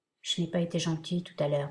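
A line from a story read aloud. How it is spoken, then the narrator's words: Murmured. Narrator (French): murmura-t-elle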